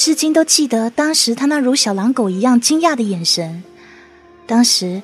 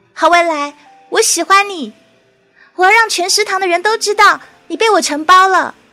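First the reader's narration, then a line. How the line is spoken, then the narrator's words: Loud insistent shout. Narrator (Chinese): 我继续穷追猛打，大声喊道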